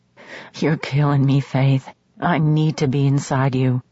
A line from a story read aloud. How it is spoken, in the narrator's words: he said through clenched teeth